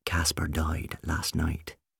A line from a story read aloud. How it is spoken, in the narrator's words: she explained quietly